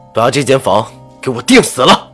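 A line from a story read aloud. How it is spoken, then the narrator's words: Loud, pained command. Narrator (Chinese): 赵石南心里抽疼的几乎呼吸不上，大声吩咐着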